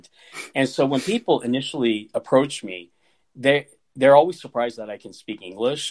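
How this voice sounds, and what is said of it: Neutral Midwestern American accent. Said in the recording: “I'm from Kansas. I have a very non-distinct accent. I have a weatherman accent.”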